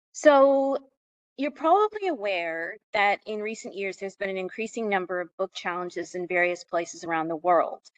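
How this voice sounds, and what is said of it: American accent. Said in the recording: “You may be able to tell from my accent that I am American.”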